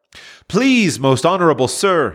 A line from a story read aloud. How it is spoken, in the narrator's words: he pleaded